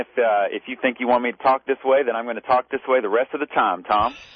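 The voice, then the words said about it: Put-on Texas accent. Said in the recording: “can you do a Texas accent ... Well, sometimes I can.”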